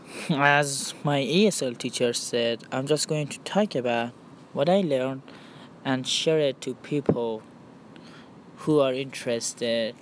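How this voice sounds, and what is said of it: Non-native English accent. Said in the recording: “I'm taking ESL classes, and that's why I have an accent... this accent”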